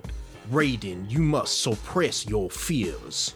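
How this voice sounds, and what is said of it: Colonial English Southern accent. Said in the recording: “a colonial English Southern accent... Will Smith talks like this”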